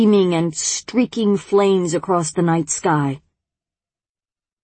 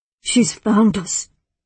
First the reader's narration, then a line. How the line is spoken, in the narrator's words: whispered the woman with the paper birds